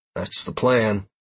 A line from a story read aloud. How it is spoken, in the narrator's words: I replied